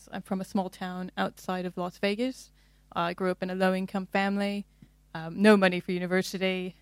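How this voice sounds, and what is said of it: American accent. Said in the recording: “you're not from around these parts... as listeners will gather from your accent... if you can't tell by my accent, originally from the United States”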